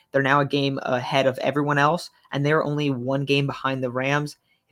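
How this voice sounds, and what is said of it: Stuffy, congested voice. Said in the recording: “I sound a little stuffy. I'm pretty sick right now”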